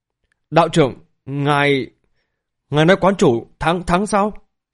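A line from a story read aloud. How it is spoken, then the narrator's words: Trembling, disbelieving. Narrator (Vietnamese): Lý Vân Hồng bờ môi run rẩy khó có thể tin nổi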